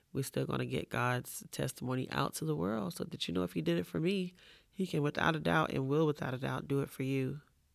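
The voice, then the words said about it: Congested voice. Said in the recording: “my voice is a little congested right now”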